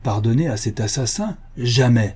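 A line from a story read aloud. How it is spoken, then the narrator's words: Voivode exclaiming. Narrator (French): s'écrie le voïvoda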